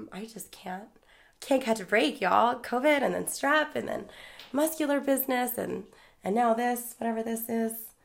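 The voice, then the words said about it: Slightly messed-up, sick-sounding voice. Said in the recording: “As you can hear, my voice is a little messed up. I got pretty sick there.”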